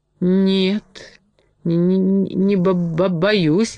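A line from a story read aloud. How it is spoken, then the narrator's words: Trembling mumble. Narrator (Russian): дрожащим голосом пробормотал медведь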